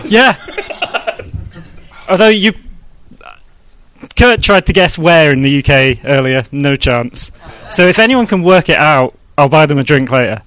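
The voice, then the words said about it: UK English accent. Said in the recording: “his accent's great. He's good at that. Wow, it sounds very real.”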